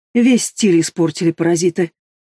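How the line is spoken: Indignant snort through gas mask. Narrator (Russian): Она возмущенно фыркнула сквозь противогаз

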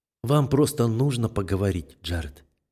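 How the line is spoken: Gentle objection. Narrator (Russian): мягко возражает Амелия

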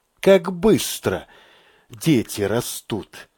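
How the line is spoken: Sighed. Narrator (Russian): вздохнул Мамед

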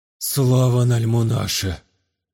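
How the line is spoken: Relieved exhale. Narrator (Russian): Облегченно выдохнул владеющий

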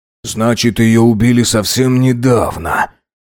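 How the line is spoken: Forced out. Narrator (Russian): выдавил Фазиль

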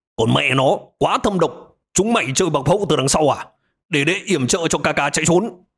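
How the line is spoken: Loud shout. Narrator (Vietnamese): Quang Trọc lớn tiếng hô

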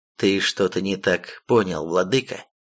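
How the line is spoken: Calm reply. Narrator (Russian): спокойно ответил защитник

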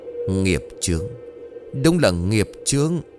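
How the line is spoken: Resigned sigh. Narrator (Vietnamese): Thầy đành lắc đầu thở dài, rồi nói

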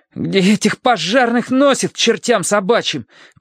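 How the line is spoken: Teenager shouting. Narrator (Russian): крикнул подросток

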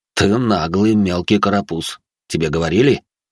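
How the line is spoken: Snort. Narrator (Russian): хмыкнул Виктор

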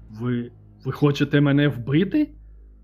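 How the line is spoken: Frightened exclamation. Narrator (Ukrainian): Вигукнув Белінгем, стаючи блідим, як полотно

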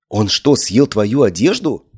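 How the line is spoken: Exclamation. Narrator (Russian): воскликнула

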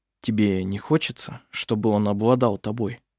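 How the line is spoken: Soft, after a pause. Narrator (Russian): После небольшой паузы он мягко произнес

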